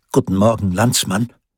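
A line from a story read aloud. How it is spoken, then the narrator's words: Plain. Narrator (German): antwortete Peter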